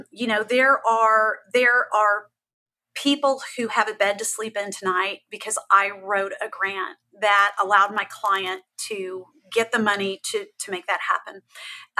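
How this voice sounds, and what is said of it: Emotional, shaky voice. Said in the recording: “If my voice shakes, I'm sorry. This is where I just get all emotional.”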